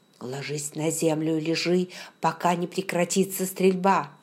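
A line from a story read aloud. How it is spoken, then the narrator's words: Furious whisper. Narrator (Russian): он яростно прошептал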